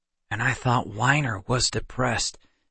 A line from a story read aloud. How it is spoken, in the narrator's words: Seth muttered to Kendra